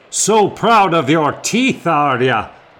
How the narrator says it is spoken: the captain shouted

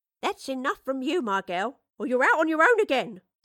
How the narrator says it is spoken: snapped Mistress Bradley

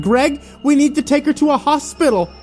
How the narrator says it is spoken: the two women clutched her tightly and begged her to wake up

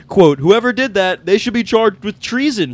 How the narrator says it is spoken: Trump yelled

